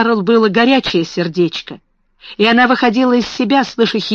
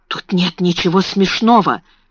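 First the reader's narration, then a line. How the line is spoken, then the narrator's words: Whispered through gritted teeth. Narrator (Russian): шептала она сквозь зубы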